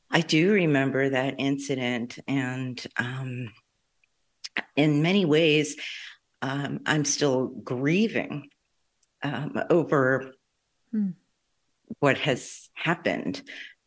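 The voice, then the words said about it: Emotional, strained voice. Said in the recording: “you can probably hear from my voice, it's still difficult to talk about”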